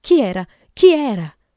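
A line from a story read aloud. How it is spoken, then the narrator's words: Shouting. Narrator (Italian): gridò Vera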